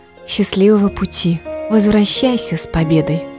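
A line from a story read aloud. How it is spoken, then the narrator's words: Trembling female voice. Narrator (Russian): сказала она дрожащим голосом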